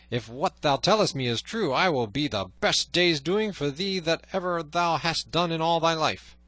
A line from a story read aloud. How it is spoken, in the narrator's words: cried he